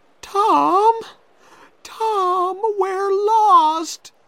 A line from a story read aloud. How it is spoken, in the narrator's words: cried Becky